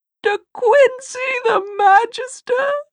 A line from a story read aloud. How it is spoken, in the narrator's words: she cried